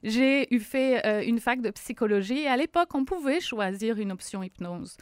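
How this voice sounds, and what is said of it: French accent from France. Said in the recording (French): “certains vont l'entendre à mon accent, je suis française, ça fait 16 ans que je suis au Québec”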